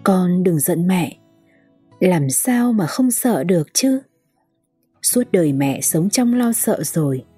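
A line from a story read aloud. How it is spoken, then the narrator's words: Old woman, moaning voice. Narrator (Vietnamese): Bà nói giọng rên rỉ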